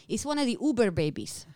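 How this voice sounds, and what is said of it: Put-on Hispanic accent. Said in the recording (Hebrew): “מבטא היספני, כמובן”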